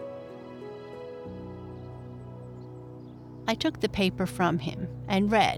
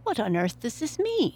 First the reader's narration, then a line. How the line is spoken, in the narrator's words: I exclaimed